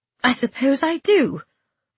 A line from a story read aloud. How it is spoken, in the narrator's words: I said uneasily